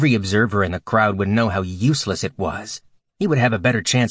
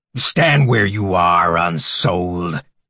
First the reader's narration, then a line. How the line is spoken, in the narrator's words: Keth roared, and the shout was driven with all the force of his madra and fury